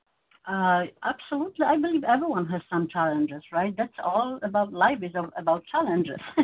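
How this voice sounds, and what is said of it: Non-native English accent. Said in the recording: “one of those challenges was my English. As you hear, I still have an accent”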